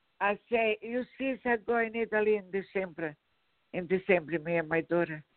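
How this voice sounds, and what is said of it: Speaks with a noticeable accent. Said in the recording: “I'm having a hard time ... It could be your accent.”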